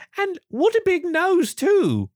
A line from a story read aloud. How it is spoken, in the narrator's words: the girl exclaimed